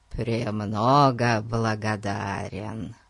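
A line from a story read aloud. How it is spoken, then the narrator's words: Hoarse wheeze. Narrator (Russian): просипел он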